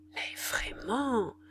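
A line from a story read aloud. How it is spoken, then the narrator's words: Muttered through teeth. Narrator (French): murmura entre ses dents la grande femme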